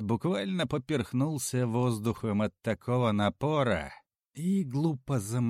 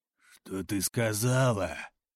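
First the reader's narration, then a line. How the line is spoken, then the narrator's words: Hoarse croak. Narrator (Russian): Прохрипел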